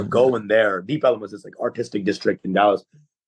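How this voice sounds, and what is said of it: New York-sounding accent, not Texan. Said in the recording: “have no Texas accent? You sound like you're from New York, really.”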